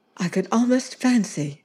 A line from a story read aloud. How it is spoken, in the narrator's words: she said anxiously